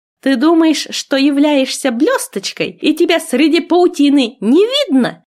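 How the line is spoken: Yelling. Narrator (Russian): заорала я

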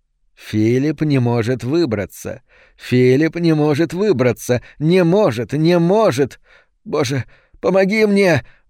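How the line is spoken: Exclamation. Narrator (Russian): воскликнул Фалько

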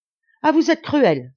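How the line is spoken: Exclaimed. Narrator (French): s'écria Marianne

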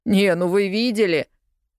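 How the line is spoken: Boy's scornful snort. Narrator (Russian): презрительно хмыкнул парнишка

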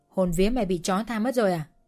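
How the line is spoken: Cold. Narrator (Vietnamese): Bóng đen lạnh lùng nói

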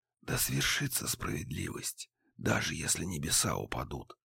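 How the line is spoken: Whisper. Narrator (Russian): прошептал я девиз отца

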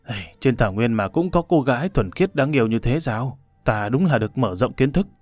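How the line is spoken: Muttering. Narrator (Vietnamese): Hồ Bất Quy lẩm bẩm

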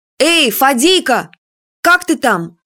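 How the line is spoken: Fearful, hopeless shout. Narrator (Russian): крикнула Юля со страхом и без особой надежды, что он услышит

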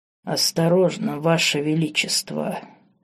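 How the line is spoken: Menacing hoarse rasp. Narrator (Russian): с угрозой в голосе прохрипел он

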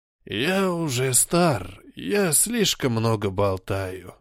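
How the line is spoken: Tired male voice. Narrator (Russian): устало сказал он

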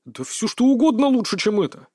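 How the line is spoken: Grumbled. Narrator (Russian): проворчал он

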